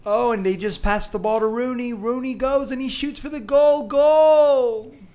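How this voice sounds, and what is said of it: Imitates a loud English soccer commentator. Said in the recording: “English announcers are so chill and relaxed in soccer ... do a perfect impersonation ... English version ... turn down your volume”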